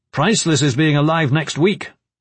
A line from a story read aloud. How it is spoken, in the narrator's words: Gavin snapped